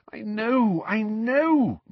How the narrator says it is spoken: moaned Mrs

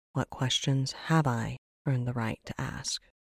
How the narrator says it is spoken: Brenora breathed

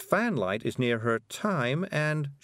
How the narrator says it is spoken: she sighed

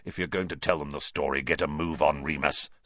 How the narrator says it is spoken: snarled Black

